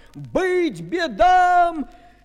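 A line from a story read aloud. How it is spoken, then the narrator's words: Crowd shouting. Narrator (Russian): крестьяне и миряне, православные христиане, закричали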